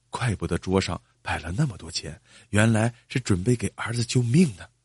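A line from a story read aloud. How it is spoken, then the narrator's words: Quiet, low voice. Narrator (Chinese): 张三小声说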